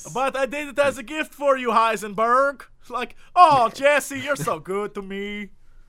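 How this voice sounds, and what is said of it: Odd mixed Spanish-Canadian accent. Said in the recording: “I don't know what accent that was ... a little combination of Spanish and Nord”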